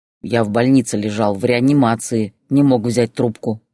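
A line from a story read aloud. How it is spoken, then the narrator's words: Grumbling. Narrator (Russian): проворчал он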